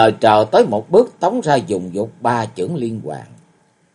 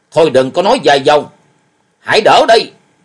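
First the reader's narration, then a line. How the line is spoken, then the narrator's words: Angry shout. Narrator (Vietnamese): Bằng ông ta trợn mắt quát lên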